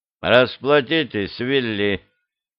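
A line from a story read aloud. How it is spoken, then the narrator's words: Grumbling. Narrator (Russian): Англичанин проворчал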